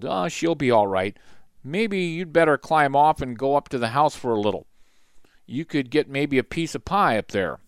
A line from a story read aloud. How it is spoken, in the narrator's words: Jess chuckled